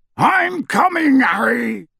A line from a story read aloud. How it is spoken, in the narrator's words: Hagrid yelled out of the darkness